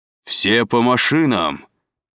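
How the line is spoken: Distant commanding roar. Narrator (Russian): взревел где-то впереди властный голос

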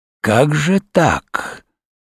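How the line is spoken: Clear hiss. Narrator (Russian): прошипел он вполне, впрочем, явственно

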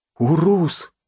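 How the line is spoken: Trembling voice. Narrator (Russian): дрожащим голосом повторяю я за ним

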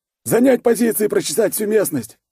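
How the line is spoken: Barked command, commander. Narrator (Russian): рявкнул комбат

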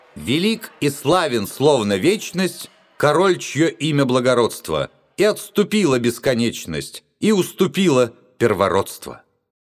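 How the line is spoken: Loud chanting shout. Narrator (Russian): громко нараспев выкрикнул

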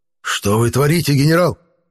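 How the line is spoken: Angry hiss. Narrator (Russian): Злобно прошипел мэр

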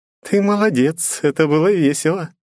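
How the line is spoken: Giggling praise. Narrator (Russian): похвалила бездна, хихикая

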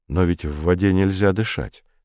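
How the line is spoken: Plain. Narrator (Russian): сказал Комов

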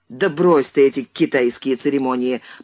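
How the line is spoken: Annoyed awkward grumble. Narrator (Russian): проворчал Андрей с досадой и неловкостью

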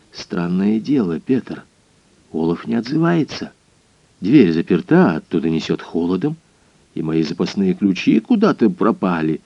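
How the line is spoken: Whisper. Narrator (Russian): прошептал

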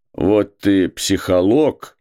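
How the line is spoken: Fatherly reproachful grumble. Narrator (Russian): проворчал он по-отечески укоризненно

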